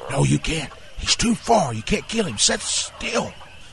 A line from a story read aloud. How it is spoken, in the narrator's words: Uncle Lee hisses back